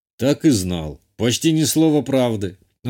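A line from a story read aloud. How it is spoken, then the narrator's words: Scoffing grunt. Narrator (Russian): он хмыкнул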